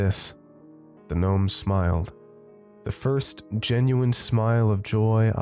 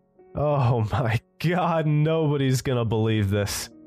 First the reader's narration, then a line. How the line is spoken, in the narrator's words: giggling to myself, giggling gave way to belly laughs, coughed out